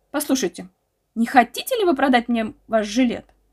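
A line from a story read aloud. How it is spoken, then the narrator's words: Exclaimed. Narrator (Russian): воскликнул я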